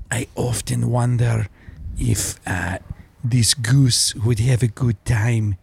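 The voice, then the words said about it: Werner Herzog German accent impression. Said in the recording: “Werner Herzog ... his accent's more German”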